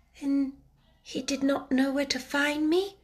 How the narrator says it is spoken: murmured Sarah

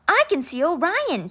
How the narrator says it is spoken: Tai cried

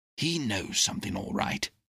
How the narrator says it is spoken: whispered the doctor

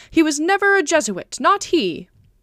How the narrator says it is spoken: merrily shouting

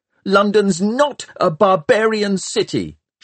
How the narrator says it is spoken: shouted Tom

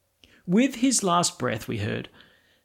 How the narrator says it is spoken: the second brother exclaimed

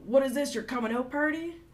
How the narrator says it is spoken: he yelled out

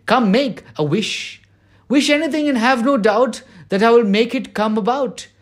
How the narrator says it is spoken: she cried

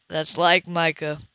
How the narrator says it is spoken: the client chuckled

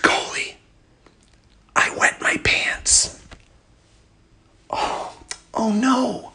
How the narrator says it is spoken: I whispered back

